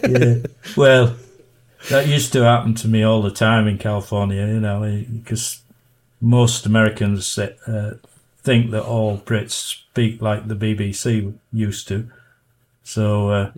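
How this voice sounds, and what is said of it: British Yorkshire accent. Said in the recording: “When you go there with a Yorkshire accent, they figure you must be Australian or something.”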